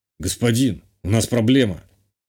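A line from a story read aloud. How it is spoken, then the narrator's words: Grim. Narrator (Russian): мрачно сказал телохранитель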